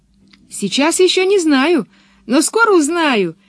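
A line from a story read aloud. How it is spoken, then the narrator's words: Cheerful reply. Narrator (Russian): весело ответила Пеппи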